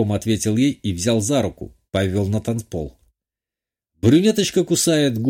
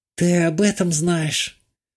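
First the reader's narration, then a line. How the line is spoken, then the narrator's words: Heavy sigh. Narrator (Russian): Тяжело вздохнула Вика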